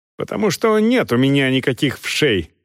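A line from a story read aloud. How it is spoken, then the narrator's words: Irritated captain's reply. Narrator (Russian): раздраженно отвечал капитан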